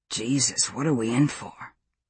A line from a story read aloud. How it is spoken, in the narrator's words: a male voice said softly